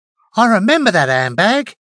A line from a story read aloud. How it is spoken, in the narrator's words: she exclaimed